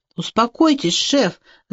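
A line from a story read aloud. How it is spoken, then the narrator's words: Pleading. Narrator (Russian): взмолился офицер Лохит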